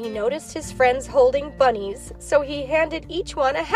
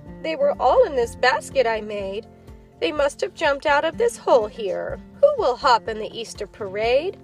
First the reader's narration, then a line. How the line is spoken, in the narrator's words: said sadly